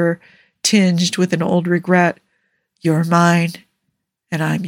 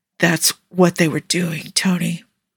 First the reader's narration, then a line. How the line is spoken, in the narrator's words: Steve rasped out